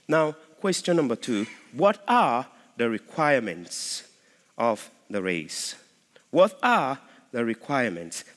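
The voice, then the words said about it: Noticeable accent. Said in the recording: “don't bother about the accent. I know some of you are wrestling with that.”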